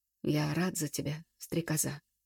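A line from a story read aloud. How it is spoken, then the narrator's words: Broken voice. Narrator (Russian): надломленным голосом вымолвил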